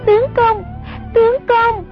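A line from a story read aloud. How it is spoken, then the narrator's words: Terrified cry. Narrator (Vietnamese): Sông Nhi hoảng sợ hồn bất phụ thể, kêu lên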